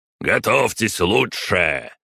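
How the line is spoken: Barking. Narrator (Russian): рявкнул Марат Измайлович

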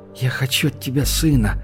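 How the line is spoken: Whisper. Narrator (Russian): прошептала она

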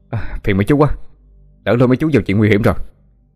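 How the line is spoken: Shouting over thunder. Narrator (Vietnamese): nói mà như hét vì sét đánh ầm đùng

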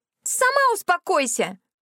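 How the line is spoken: Shrieking. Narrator (Russian): взвизгнула она в ответ

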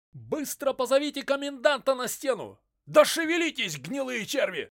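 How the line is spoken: Centurion shouting. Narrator (Russian): закричал дежурный центурион Антан, который вел наблюдение со стены крепости

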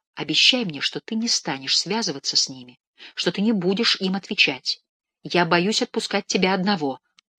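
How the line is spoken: Quick whisper. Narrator (Russian): сказала быстро, шепотом

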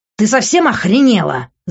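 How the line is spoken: Yelling. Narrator (Russian): закричав

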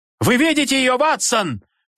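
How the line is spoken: Roaring. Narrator (Russian): проревел он

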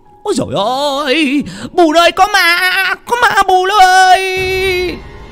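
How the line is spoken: Old man screaming. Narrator (Vietnamese): Lão hét lên

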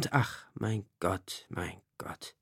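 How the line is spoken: Sad sighing. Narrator (German): Traurig wanderte er im Garten umher und seufzte fortwährend

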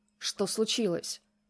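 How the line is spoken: Growl. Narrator (Russian): рыкнул Захар

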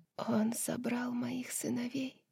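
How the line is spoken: Whisper. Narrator (Russian): прошептала

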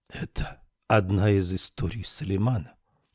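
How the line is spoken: Whispered question. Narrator (Russian): шепотом спросила Камилла

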